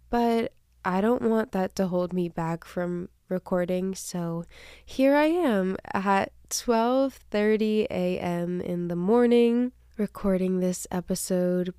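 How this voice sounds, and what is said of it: Stuffy, congested voice. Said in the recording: “I am a bit stuffed getting over a cold ... my voice sounds a little bit different ... it does sound a little bit stuffy”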